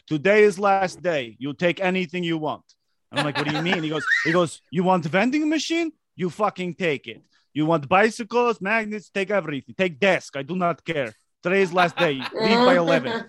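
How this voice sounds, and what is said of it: Convincing put-on foreign accent. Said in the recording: “That is an impressive accent. ... Really good.”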